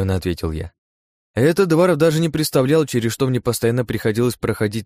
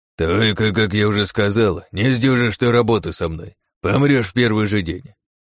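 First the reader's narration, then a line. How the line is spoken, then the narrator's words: Dismissive snort. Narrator (Russian): хмыкнул он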